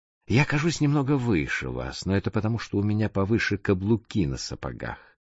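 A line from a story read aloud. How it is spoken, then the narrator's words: Calm explanation. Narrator (Russian): спокойно объяснил незнакомец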